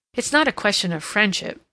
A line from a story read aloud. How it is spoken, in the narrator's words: Mary exclaimed, her anger rising to her own surprise